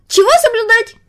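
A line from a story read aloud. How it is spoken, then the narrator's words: Shrill yell, mosquito. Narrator (Russian): завопил комар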